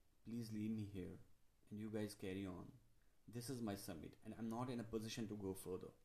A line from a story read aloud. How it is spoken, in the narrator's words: I murmured